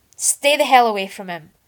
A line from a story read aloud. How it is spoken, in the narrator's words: Arthur was overwhelmed with the sudden desire to shout